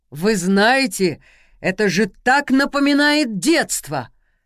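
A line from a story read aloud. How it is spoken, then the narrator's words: Shouted. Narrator (Russian): выкрикнул Владимир Беспятов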